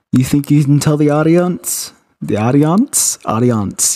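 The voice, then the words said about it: Put-on accent. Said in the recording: “Yes, I have an accent now.”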